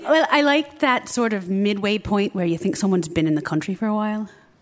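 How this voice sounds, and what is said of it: Light Irish accent, partly American. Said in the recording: “It's like kind of American, but not entirely. There's a tinge to it... Like kind of what you're doing?... What I'm doing right now... you do a little bit of extra to it... I don't fake the Irish every day”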